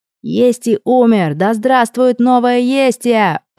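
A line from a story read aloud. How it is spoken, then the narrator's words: Loud shout over breaking glass. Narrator (Russian): прокричал Берни, частично перекрывая своим голосом звук разбившегося стекла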